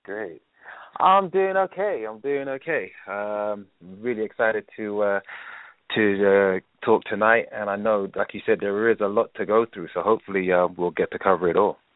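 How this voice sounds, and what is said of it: London accent. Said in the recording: “Where is your accent from? ... From London, originally.”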